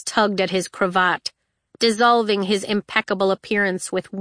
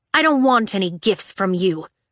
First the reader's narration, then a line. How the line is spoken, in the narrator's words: she spat